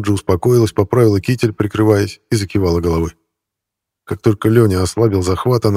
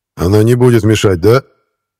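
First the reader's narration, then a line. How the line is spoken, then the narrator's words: Loud. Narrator (Russian): громко сказал Архипов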